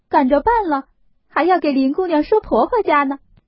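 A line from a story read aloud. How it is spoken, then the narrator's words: Smiling. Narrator (Chinese): 笑了一笑，才说道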